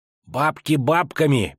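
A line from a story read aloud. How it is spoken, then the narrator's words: Lisping pike. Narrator (Russian): прошепелявил щук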